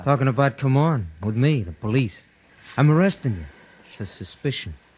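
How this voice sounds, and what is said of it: American lilt. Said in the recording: “quite an American lilt to your voice.”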